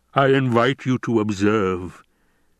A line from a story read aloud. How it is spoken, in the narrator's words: the basso voice rumbled